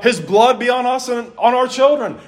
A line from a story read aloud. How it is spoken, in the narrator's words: would yell